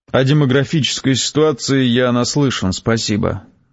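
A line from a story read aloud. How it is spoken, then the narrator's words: Mocking interruption. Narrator (Russian): насмешливо прервал меня Гессер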